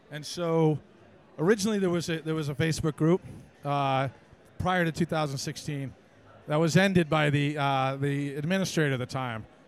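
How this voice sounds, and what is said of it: American accent, not Scottish. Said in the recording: “that is not a Scottish accent ... just north of Boston in the States”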